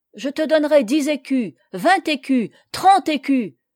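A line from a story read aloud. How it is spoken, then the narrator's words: Exclamation. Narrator (French): s'écria-t-il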